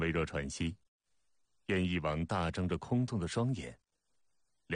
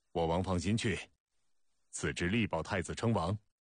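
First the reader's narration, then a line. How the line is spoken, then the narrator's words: Loud, clear voice. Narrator (Chinese): 子之朗朗高声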